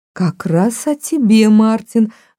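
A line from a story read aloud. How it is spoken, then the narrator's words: Exclaimed. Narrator (Russian): воскликнула Салли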